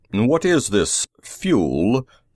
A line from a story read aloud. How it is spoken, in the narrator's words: the chief asked haughtily